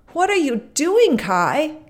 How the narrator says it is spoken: Gerda cried

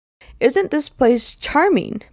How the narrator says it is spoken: Betty exclaims

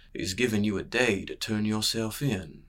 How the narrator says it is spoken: murmured Brayden

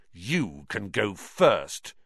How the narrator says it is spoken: Ron snarled

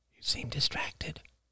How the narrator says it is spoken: he whispered

